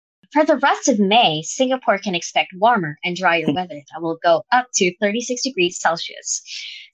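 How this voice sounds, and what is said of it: TV weather presenter voice. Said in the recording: “put on my weather girl voice”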